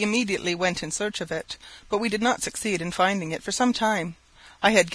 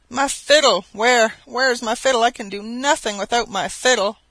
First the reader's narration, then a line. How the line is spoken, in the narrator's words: my companion exclaimed in an agonized tone